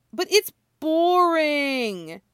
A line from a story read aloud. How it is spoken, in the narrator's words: he whines